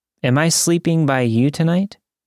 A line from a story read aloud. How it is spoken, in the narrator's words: he asked